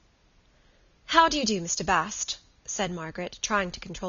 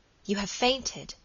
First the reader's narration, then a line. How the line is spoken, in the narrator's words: said the lady in an awestruck voice